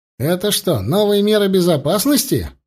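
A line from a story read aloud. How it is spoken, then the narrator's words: Cheerful question over radio. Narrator (Russian): весело спросил Серега в общем канале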